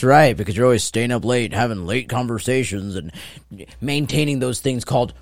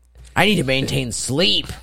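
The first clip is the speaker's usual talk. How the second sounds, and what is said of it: Imitates another person's voice. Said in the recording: “my best impersonation”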